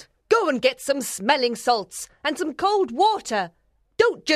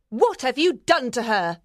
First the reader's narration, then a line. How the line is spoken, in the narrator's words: She asked angrily